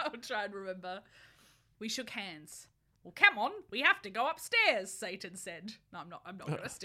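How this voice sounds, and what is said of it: Usual voice. Nothing is said of it.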